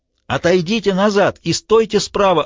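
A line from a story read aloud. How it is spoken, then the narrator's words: Yelling. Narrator (Russian): орал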